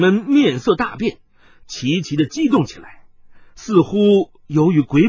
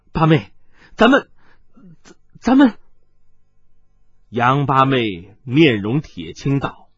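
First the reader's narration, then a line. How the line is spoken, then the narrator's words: Trembling voice. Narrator (Chinese): 李二姐颤声道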